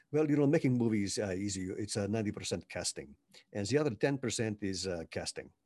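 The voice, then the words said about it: Imitated Czech accent of Milos Forman. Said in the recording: “Milos, in his Czech accent, says”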